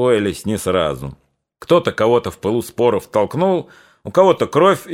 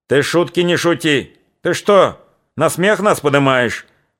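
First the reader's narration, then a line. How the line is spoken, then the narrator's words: Old man yelling. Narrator (Russian): Вопил у него под ухом старик Кашулин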